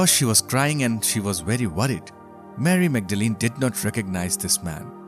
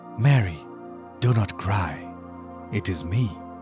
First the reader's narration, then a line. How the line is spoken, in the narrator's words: Jesus said softly